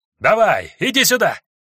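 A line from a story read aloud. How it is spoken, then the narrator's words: Yelling. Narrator (Russian): заорал я медверогу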